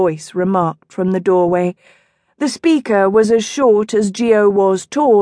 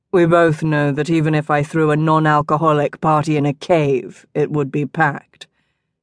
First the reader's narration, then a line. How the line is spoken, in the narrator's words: Geo said dryly